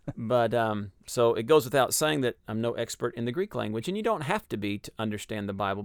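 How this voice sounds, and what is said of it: Texas accent. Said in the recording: “my accent ... Texas.”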